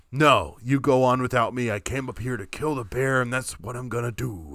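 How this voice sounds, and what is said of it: Richard Nixon-like voice impression. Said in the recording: “I went almost Richard Nixon with that impression.”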